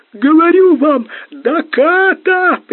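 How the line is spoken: Howling. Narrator (Russian): прямо-таки взвыл рулевой

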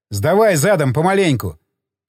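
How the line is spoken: Shouting. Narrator (Russian): крикнул я

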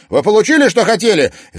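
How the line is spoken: Angry shout. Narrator (Russian): зло крикнул Тимофей

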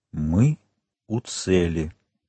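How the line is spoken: Sad traveler whispering. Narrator (Russian): прошептал путешественник с какой-то непередаваемой грустью

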